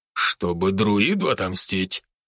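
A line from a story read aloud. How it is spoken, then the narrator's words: Man's snort. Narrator (Russian): хмыкнул мужчина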